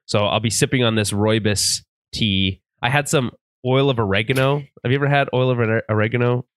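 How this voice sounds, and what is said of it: Sick, congested-sounding voice. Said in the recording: “I'm sick... You can probably hear it in my voice. I've got a cold”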